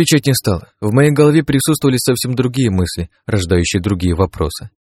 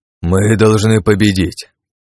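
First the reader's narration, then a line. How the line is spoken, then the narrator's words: Hoarse. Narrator (Russian): хриплым голосом произнес Крат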